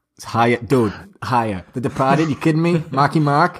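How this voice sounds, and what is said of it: Put-on Boston accent. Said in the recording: “But in a Boston accent ... Was that your best accent?”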